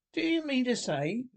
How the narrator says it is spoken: cried the slate rat

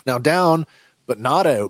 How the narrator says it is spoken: Boba exclaims

